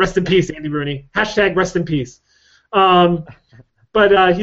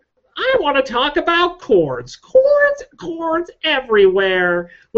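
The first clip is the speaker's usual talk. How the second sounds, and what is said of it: Imitates another person's voice. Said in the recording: “my two bit Andy Rooney impersonation”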